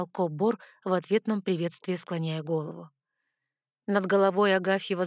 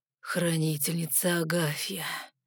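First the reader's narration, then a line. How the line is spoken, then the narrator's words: Resigned exhale. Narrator (Russian): обреченно выдохнул Райан Гримиум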